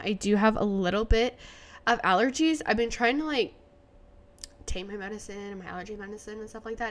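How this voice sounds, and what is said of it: Nasal, congested voice. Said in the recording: “I sound nasally,⟧ it's because I am ... if I do sound nasally ... I have just sounded disgusting”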